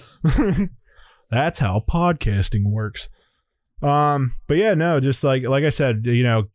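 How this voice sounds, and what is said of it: Usual voice. Nothing is said of it.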